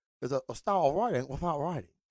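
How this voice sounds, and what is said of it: Poor imitation of another person's voice. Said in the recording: “my Bruce Lee impersonation ... It's awful”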